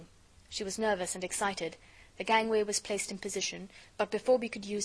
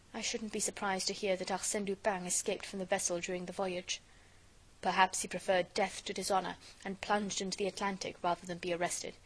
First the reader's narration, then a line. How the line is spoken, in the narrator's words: Miss Nelly murmured